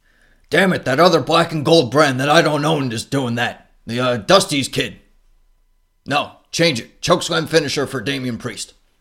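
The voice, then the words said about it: Imitates another person's voice, badly. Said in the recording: “terrible Vince McMahon impression”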